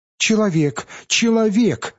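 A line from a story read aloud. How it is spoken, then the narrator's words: Shouting. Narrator (Russian): закричала она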